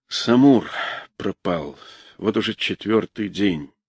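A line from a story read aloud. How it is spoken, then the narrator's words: Saddened, private voice. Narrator (Russian): другим опечаленным голосом, сказал для одного Саши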